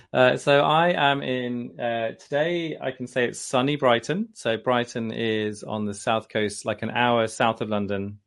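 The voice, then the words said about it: English accent. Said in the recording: “I love your voice and your accent. It's so fabulous.”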